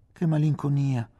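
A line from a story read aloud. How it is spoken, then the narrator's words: Sighing. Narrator (Italian): sospirò Giannina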